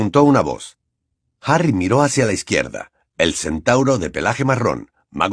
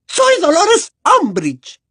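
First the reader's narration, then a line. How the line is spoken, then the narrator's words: Shrill frightened voice. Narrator (Spanish): contestó la profesora con una voz chillona que delataba su miedo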